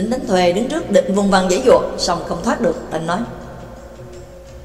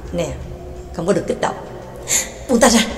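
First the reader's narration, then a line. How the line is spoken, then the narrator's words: Whispering. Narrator (Vietnamese): thì thào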